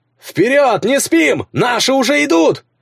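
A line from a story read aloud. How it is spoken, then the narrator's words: Shout from behind. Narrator (Russian): закричал кто-то у нее за спиной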